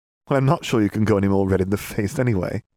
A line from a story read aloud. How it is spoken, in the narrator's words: Katie laughed